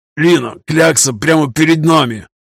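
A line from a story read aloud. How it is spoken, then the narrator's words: Faint hiss through broken teeth. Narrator (Russian): Стараясь удержать уплывающее сознание, прошипел сквозь обломки зубов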